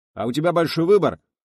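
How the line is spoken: Yelling. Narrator (Russian): заорал Николс

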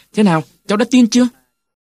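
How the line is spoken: Excited group cheer. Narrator (Vietnamese): Chúng tôi reo lên

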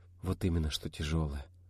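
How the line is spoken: Mutter. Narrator (Russian): пробормотала будущая мама

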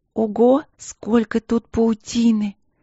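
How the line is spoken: Breathless exclamation. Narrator (Russian): выдохнула Полина

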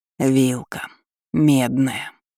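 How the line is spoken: Enchanted mutter. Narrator (Russian): зачарованно пробормотал Энрико

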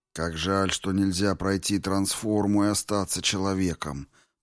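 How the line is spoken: Muttered. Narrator (Russian): пробормотал Публий

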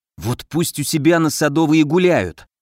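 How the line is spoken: Hissing. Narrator (Russian): прошипел Поплавский

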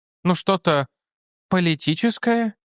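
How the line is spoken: Uncertain dog's voice. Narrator (Russian): неуверенно предложила псина

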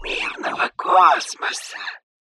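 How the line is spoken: Hiss. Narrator (Russian): прошипел Хан

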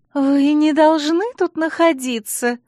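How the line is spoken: Breathless exclamation, no reproach. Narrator (Russian): с придыханием воскликнула Алекс, и в ее голосе не было ни тени упрека

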